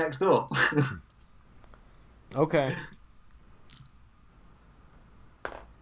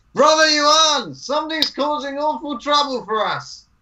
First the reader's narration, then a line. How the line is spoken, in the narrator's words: I will yell out loud